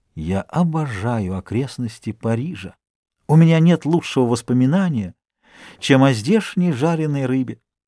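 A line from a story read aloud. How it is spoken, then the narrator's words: Whispered. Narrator (Russian): Дюруа прошептал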